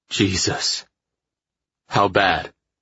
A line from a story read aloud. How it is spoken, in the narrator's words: He exhaled harshly